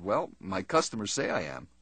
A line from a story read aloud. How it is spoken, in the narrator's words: Martin smiled and quietly said